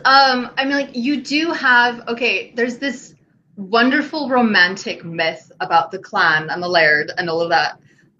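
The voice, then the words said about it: Slips into a Scottish brogue. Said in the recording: “I'm starting to slip into a brogue.”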